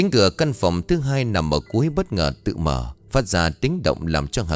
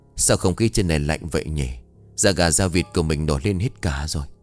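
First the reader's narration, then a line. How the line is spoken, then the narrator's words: Muttering to oneself. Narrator (Vietnamese): Cứ lẩm bẩm nói trong miệng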